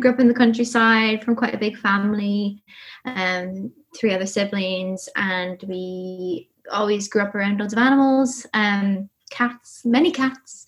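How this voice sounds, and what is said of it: Irish accent. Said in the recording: “I'm Irish, as you can maybe tell from my accent.”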